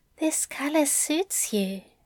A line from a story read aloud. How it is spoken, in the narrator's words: Aziraphale whispered